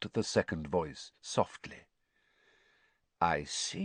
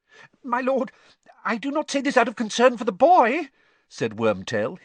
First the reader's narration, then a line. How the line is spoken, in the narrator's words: his voice rising squeakily